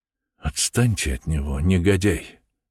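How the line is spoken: Whisper. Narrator (Russian): шепнул

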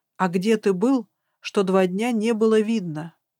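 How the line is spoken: Calmer. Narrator (Russian): продолжила я уже более спокойно

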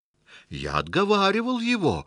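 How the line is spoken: Indignant declaration. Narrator (Russian): возмущенно заявил Черчилл

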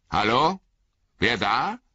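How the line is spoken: Calling out. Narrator (German): rief der Bauer Margot

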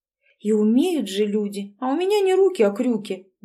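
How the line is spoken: Muttered. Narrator (Russian): буркнула Кикимарова

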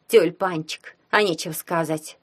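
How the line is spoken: Snorted. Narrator (Russian): фыркнула Яги

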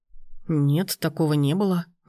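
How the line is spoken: Uncertain answer. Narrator (Russian): неуверенно ответил Данияр

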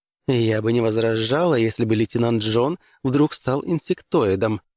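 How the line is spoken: Plain. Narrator (Russian): ответила принцесса

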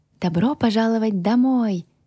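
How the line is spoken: Happy exclamation. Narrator (Russian): воскликнул счастливый голос невидимки

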